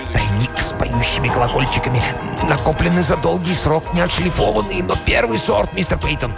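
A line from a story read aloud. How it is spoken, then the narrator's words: Whispering. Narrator (Russian): Корнуэлл шептал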